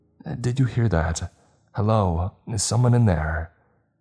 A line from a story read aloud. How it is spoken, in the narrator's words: she asked, her voice trembling with apprehension